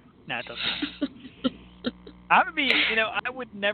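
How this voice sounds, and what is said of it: Usual voice. Nothing is said of it.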